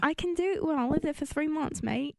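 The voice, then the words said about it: Put-on Australian accent. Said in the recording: “put a little accent to it ... that's Australian ... you sound a little bit Australian”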